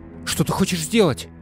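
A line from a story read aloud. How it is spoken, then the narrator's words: Shouted. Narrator (Russian): крикнула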